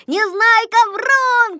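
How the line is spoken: Group shouting. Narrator (Russian): кричали они

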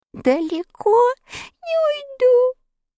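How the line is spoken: Sobbing. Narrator (Russian): всхлипнул мякиш

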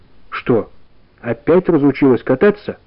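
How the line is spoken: Plain. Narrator (Russian): сказал Сережа

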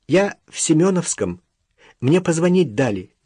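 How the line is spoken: Thin sobbing voice. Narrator (Russian): всхлипнул тоненький голосок

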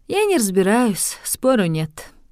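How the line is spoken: Sighing. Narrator (Russian): вздохнула сеньора Оттавия

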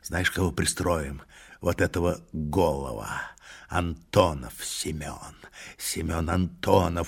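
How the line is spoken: Rough, unclear voice. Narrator (Russian): продолжал Тугай нечистым голосом

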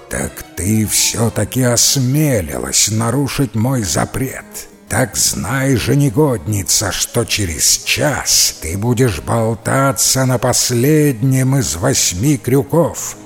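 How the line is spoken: Furious roar. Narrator (Russian): Синяя Борода пришел в ярость и прорычал

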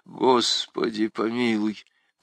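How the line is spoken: Mutter. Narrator (Russian): пробормотал Грангуар

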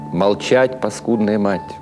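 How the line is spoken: Plain. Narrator (Russian): ответил ей Цудечкис

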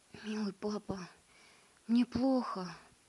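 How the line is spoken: Whispered. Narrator (Russian): прошептал

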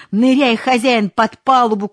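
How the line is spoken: Shouting. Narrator (Russian): кричал Дмитрий

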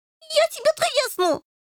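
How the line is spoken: Shrieked. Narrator (Russian): завизжал Рыжий

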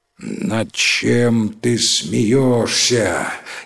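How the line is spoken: Terrifying voice. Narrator (Russian): спросил таким страшным голосом

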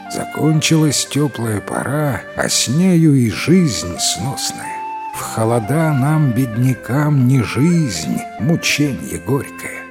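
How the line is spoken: Sighing. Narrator (Russian): Вздохнул Джан Эр, то есть Джан Второй, и говорит

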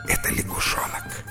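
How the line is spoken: Wife's whisper. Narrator (Russian): жена шепнула ему ответ

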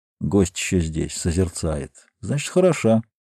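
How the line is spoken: Muttering. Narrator (Russian): Скульптор пробормотал

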